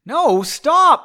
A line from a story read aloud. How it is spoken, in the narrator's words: Margot yelled